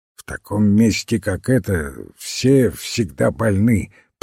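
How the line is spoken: Grumbling doctor. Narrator (Russian): пробурчал доктор

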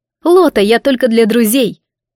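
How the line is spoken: Angry hiss. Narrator (Russian): прошипело зло

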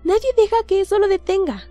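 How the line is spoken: Exclaiming. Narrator (Spanish): exclama Flavius

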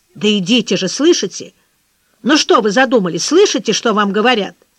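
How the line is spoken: Angry, stern, commanding. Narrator (Russian): Так Дмитрий Александрович еще никогда не говорил с Сашей, сердито, строго и властно

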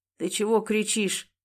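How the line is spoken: Sleepy question. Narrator (Russian): сонно спросил Никита

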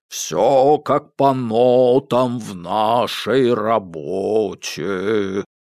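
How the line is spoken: Deep bass voice. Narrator (Russian): пробасил Ре

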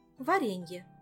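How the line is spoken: Plain. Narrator (Russian): ответила Эльвира

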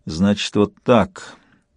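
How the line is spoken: Through gritted teeth. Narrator (Russian): сквозь зубы сказал Сварог

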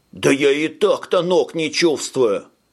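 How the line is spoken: Yelling. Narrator (Russian): завопил Таурос

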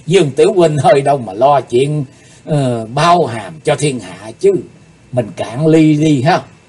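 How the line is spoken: Bursting into laughter. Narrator (Vietnamese): Tiểu thần khất giật bật cười lớn nói

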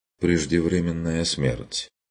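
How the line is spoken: Gloomy. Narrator (Russian): довершил он мрачно

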